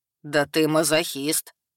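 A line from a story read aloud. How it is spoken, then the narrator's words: Snorting. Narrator (Russian): хмыкнул Хак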